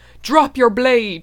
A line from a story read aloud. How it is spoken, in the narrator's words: cried